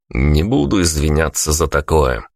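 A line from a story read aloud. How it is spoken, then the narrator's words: Mocking reply. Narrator (Russian): насмешливо ответил я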